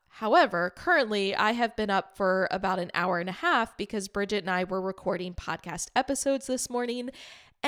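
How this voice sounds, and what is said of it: Raspy voice. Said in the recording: “instead of sultry, you get my nice raspy voice because I have not had a sip of water in over 2 hours”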